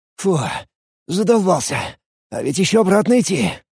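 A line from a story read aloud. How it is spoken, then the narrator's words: Tired mutter. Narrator (Russian): Устало пробормотал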